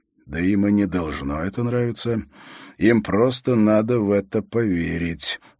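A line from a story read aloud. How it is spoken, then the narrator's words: Quiet reply. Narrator (Russian): так же тихо ответил ему Холт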